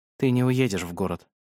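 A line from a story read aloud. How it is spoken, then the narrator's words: Calm. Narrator (Russian): сказал он спокойно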